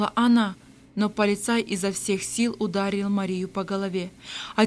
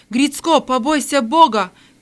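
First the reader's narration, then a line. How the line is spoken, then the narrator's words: Shout after someone. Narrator (Russian): крикнул кто-то вслед полицаю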